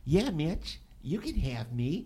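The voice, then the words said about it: Mike Tyson impression, high voice. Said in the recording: “Mike Tyson ... In his nice little high voice.”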